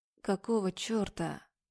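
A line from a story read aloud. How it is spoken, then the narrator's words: Contemptuous muttering drawl. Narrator (Russian): Бормочет Князева, с презрением, протягивает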